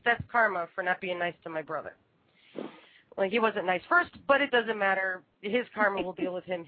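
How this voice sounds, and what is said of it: Congested, stuffy-nosed voice. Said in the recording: “hear the congestion in my voice? ... I caught a cold”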